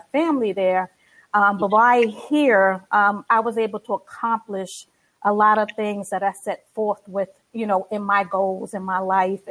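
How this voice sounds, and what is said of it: New York accent. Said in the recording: “I still have that New York accent.”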